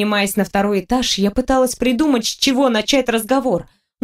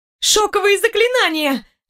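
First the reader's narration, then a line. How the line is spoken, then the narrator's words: Alarmed shriek. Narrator (Russian): взвизгнула я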